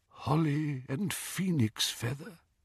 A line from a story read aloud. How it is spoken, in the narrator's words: said Ollivander in a tremulous voice